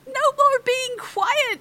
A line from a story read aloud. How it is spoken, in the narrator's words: shouted Crisp